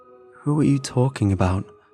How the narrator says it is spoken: I asked

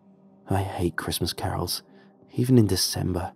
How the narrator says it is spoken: muttered the other guy

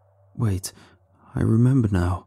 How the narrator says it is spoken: said shakily

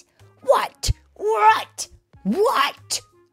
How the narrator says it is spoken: shouted the fox

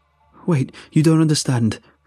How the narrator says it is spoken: pleaded

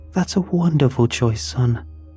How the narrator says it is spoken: they exclaimed

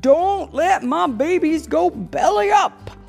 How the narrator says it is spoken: hollered Daddy

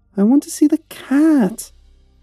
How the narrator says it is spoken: she whined

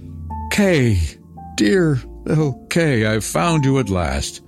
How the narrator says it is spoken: she exclaimed

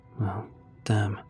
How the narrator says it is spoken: muttered Jake

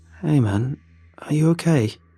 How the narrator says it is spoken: I asked wearily

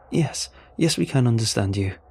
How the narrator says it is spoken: he said in an excited tone

